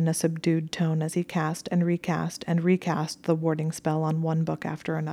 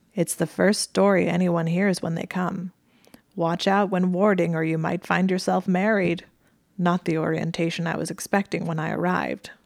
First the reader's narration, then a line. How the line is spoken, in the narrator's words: she said and then chuckled faintly